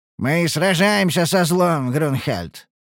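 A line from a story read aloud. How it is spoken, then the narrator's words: Snorting. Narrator (Russian): хмыкнул Тубарра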